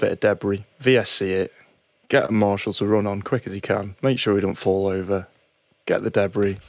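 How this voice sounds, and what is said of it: Usual voice. Nothing is said of it.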